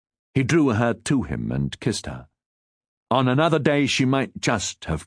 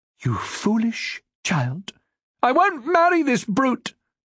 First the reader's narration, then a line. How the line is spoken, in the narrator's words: Marjorie cried